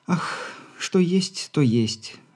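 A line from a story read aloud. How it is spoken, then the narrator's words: Affectedly languid sigh. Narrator (Russian): нарочито томно вздохнула Попова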